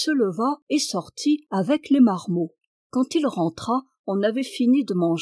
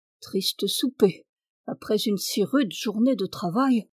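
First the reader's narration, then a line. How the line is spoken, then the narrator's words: Murmured. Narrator (French): murmura-t-il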